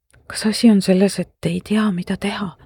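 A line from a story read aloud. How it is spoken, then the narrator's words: Whispered. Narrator (Estonian): sosistasin marglikult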